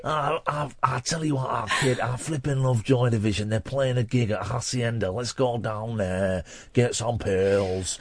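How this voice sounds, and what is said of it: Mock Manchester accent. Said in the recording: “this is the voice he does when he's taking me off ... my Manchester accent”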